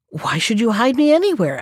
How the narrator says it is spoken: asked the jackal

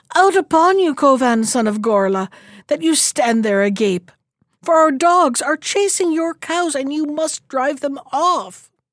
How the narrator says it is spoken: cried with panting breath

